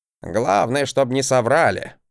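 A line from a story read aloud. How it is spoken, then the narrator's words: Grumbling. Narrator (Russian): проворчал Гринельф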